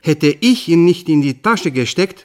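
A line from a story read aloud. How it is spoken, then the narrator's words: Plain. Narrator (German): sagte der Nackte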